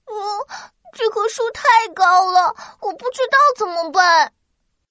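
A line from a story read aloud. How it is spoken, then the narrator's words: Crying. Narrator (Chinese): 泪汪汪公主 只好哭着说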